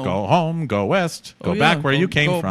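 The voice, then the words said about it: Imitates another person's voice. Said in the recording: “That's a good impression that no one will ever know.”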